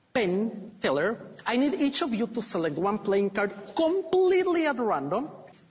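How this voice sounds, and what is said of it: Ecuadorian-accented English. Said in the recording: “My parents, they moved to Ecuador, where I was born and raised. That explains the accent.”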